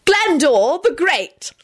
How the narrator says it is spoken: shrieked ecstatically

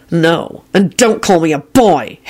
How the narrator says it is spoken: Harry hissed angrily

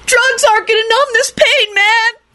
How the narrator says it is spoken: Kenny shrieked

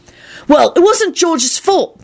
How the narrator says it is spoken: Timothy said hotly

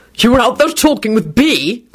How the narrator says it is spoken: Quentin snapped

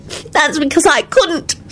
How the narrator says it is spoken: Solange said fiercely

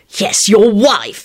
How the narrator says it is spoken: he spat out

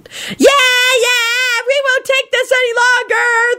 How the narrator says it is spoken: the crowd shouted

